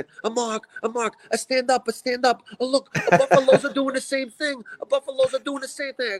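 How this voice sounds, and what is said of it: Imitated Italian accent. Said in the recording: “has an Italian accent.”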